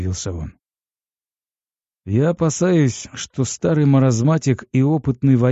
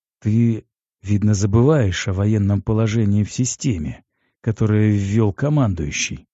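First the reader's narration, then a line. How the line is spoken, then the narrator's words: Sad. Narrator (Russian): печально сказал я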